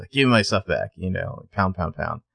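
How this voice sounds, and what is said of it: Impression of Dark Lucas. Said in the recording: “great impression”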